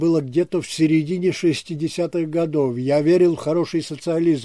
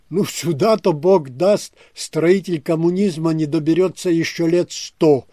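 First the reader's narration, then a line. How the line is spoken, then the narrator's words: Exclamation. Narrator (Russian): воскликнул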